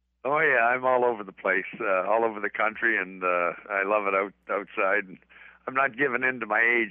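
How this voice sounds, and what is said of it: Shaky, rough voice. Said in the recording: “My voice is shaky today. ... I picked up something ... My voice is a little rough today.”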